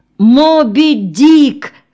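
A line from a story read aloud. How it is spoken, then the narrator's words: Shout. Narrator (Russian): крикнул Веня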